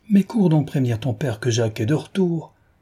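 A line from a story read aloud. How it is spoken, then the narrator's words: Sudden lively exclamation. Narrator (French): s'écria tout à coup la pétulante Madame Passemard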